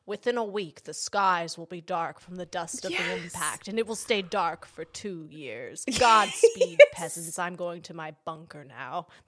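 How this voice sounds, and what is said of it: Imitates another person's voice. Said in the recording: “my Morgan Freeman impression ... It wasn't good.”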